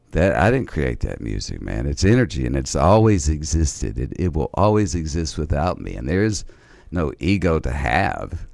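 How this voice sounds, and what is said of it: Raspy voice. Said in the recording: “you can tell by my raspy voice, I'm not a pretty singer”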